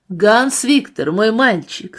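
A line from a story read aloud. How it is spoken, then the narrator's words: Suddenly loud. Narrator (Russian): сказал он неожиданно громким голосом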